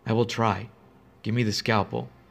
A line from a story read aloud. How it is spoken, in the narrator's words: She said calmly